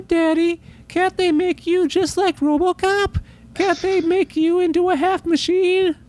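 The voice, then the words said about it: Imitates a young child's voice. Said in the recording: “my impersonation of a kid after seeing RoboCop talking to his dad”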